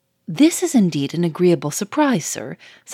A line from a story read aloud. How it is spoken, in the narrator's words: said the manager cheerfully